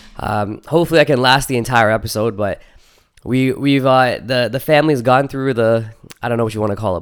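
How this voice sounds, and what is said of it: Voice sounds sick with a cold. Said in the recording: “I'm battling a bit of a cold here, so my voice might sound a bit different.”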